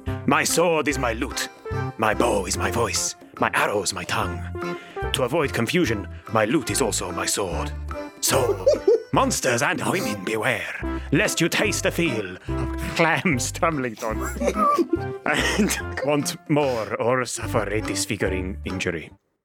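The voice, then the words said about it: Inconsistent put-on accent. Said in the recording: “inconsistent accent”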